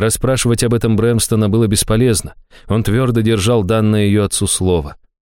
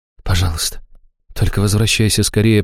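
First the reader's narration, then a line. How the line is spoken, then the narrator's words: Whisper. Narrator (Russian): прошептала Аштира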